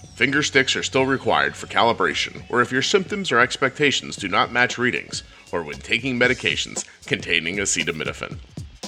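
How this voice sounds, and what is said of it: Deliberately deep-pitched voice. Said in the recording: “I'm going to go deep voice.”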